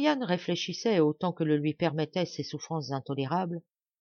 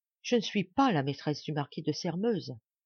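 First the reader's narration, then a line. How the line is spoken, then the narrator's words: Faint faltering voice. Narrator (French): prononça-t-elle d'une voix défaillante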